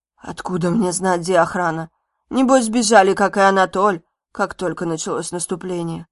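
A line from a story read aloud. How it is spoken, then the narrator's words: Hoarse. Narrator (Russian): Владислав сипло сказал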